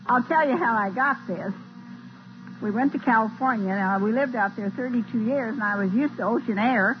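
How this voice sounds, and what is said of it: Weak, strained voice. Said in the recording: “My voice is not too strong”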